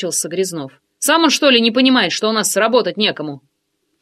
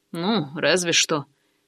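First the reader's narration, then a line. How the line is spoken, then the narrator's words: Grumble. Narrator (Russian): проворчал Валера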